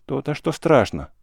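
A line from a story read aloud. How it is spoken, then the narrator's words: Sad wry laugh. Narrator (Russian): грустно усмехнулся Савка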